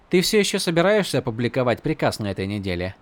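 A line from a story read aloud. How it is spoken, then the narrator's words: Plain. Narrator (Russian): спросила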